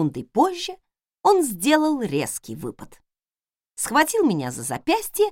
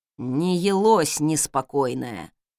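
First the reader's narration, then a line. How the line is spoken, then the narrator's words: Sleepy mumble. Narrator (Russian): Сонно пробормотал тот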